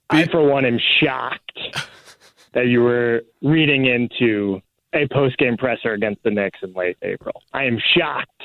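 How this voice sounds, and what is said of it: Sarcastic mock-shocked delivery. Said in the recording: “it was sarcasm.”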